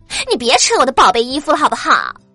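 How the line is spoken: Loud. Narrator (Chinese): 胖哥听了就大声说

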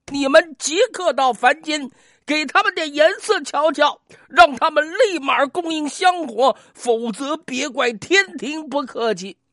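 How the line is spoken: Furious roaring. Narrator (Chinese): 咆哮道

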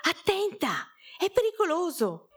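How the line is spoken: Frightened mother shouting. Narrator (Italian): una mamma si spaventò, gridando

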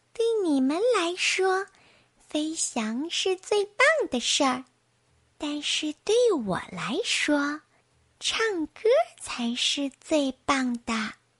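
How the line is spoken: Quiet. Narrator (Chinese): 林格 小声说

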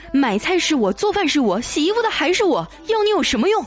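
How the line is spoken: Loud roar, boy. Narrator (Chinese): 那男孩大声咆哮

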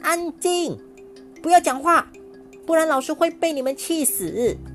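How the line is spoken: Angry shouting. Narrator (Chinese): 王婷继续生气的喊

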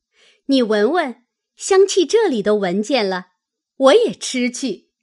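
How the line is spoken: Laughing. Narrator (Chinese): 探春笑道

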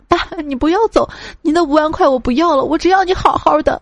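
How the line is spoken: Sobbing shout. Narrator (Chinese): 痛哭流涕，大喊

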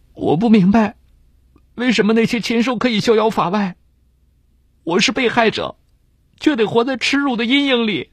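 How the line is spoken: Anguished crying. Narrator (Chinese): 李娟痛苦万分的哭着说

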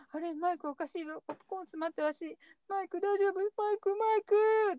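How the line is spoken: Crying. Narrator (Japanese): って泣いちゃう

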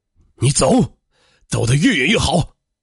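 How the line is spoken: Angry father. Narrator (Chinese): 父亲怒道

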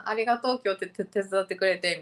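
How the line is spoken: Plain. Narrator (Japanese): みたいな感じで言ったら

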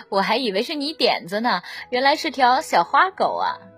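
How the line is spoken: Laughing, teasing. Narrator (Chinese): 妈妈笑着打趣道

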